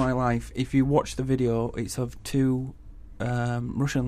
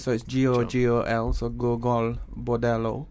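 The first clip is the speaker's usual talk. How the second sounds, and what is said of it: Put-on Spanish accent. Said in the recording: “I don't know why I'm doing a Spanish accent.”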